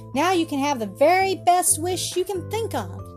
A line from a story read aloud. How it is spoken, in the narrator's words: she cried